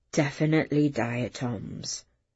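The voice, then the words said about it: Quiet, hushed voice. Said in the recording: “in a quiet voice.”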